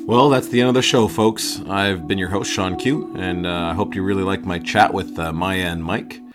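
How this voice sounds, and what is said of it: Voice sounds a little off. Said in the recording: “my voice sounds a little off. I've had a cold lately.”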